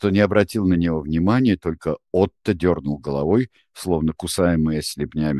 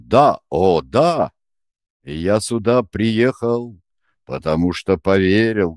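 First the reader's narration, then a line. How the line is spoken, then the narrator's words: Loud deep voice. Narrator (Russian): громко басил дядя Юра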